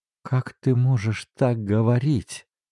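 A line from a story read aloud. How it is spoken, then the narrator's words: Pale whisper. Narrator (Russian): прошептала она бледнее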